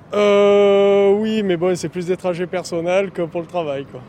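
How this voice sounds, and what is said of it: Southern French Marseille accent. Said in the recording (French): “Vous avez un accent du sud ? ... C'est ça, exactement, ouais. De Marseille.”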